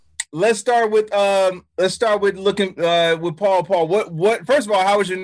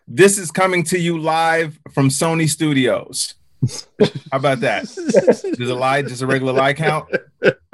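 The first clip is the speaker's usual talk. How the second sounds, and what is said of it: Imitates another person's voice. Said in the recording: “my Trump impression.”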